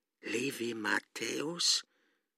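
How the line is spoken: Hoarse sick man asking. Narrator (German): fragte der Kranke heiser

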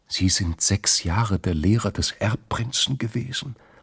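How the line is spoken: Whispered. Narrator (German): hatte geflüstert

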